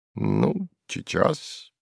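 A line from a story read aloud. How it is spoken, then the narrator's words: Displeased muttering. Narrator (Russian): пробормотал сувенир с неудовольствием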